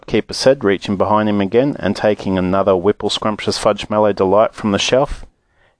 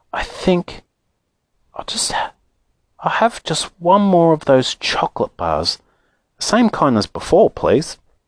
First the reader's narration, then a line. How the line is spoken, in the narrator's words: said quietly